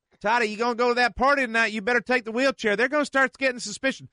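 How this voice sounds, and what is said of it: Mother character in Southern accent. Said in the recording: “she's got the Southern accent, too?”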